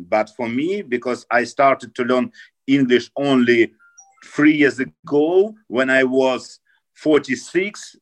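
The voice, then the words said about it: Strong Russian accent. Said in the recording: “you have an unbelievable bad Russian accent. ... Of course, because I'm Russian and I have a Russian accent.”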